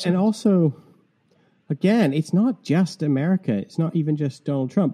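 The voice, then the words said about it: Mixed Canadian and English accent. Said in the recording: “I'm Canadian who's been living in England for 25 years, which is why I have this strange accent... I think you thought I was Irish”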